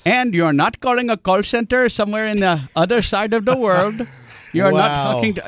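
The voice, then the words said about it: Put-on foreign call-center accent. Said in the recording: “you like that? I do good accent.”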